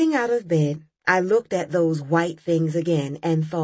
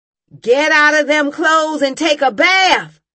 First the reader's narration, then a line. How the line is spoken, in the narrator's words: Mama yelled